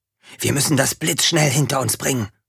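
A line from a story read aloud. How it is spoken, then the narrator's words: Hissing. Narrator (German): zischte er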